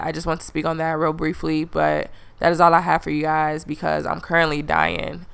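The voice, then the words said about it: Sick, strained-sounding voice. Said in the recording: “If you can't tell by my voice, I'm currently dying.”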